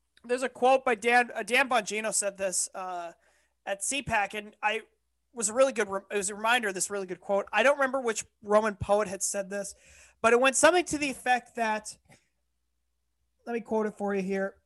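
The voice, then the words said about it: Loud, yelling, strained voice. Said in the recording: “I'm yelling too much. I'm straining my vocal cords.”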